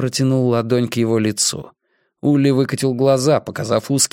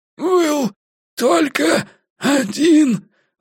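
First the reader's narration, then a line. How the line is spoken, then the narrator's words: Hoarse wheeze. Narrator (Russian): выхрипел Улли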